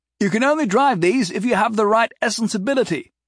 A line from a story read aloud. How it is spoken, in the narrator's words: Clive yelled back at Jason